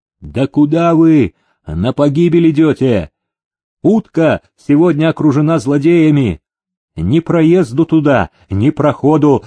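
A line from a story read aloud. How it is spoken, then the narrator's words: Shouting. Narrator (Russian): закричал он селезню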